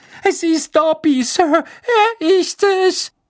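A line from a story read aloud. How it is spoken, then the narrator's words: Squeaking from below. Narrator (German): piepste die Stimme in seiner Nabelgegend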